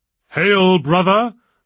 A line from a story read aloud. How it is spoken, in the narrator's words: boomed Roger the chairman